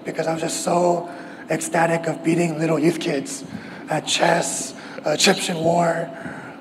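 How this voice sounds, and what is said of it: Hoarse voice. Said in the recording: “my voice was even more hoarse than it is now”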